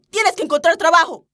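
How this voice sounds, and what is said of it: Shouting angrily. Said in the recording (Spanish): “estás gritando”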